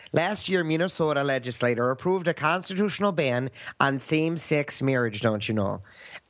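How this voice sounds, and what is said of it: Put-on Minnesota accent. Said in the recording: “speak in a Minnesota accent if you can, please ... I'm not sure how good my Minnesota is”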